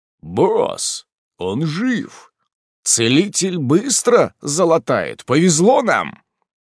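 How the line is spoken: Deep bass voice. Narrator (Russian): пробасил

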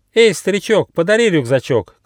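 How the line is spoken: Shout. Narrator (Russian): крикнул Бум

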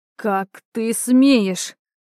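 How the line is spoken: Low guttural growl. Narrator (Russian): Низко, утробно прорычала я

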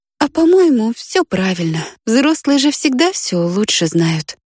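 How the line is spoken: Sighing. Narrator (Russian): вздохнула

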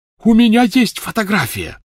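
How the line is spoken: Shouted. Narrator (Russian): закричал Люпин

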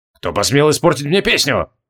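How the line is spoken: Said through clenched teeth. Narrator (Russian): процедил Асанте

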